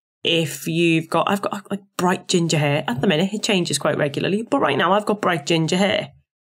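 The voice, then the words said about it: Strong Scouse accent. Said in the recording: “I have a really strong Scouse accent.”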